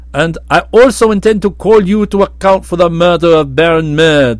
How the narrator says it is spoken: Prince Marvel announced in a bold voice

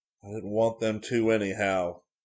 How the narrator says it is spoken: growled Cook

